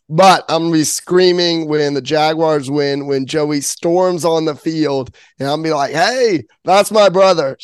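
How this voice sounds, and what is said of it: Hoarse, partly lost voice. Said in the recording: “your voice a little gone... my voice is still not fully back”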